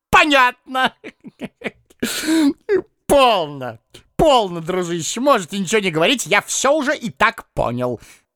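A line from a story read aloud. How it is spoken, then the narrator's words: Choking with laughter. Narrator (Russian): Едва не давясь от хохота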